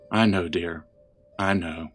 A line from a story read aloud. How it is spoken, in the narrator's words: Merle said softly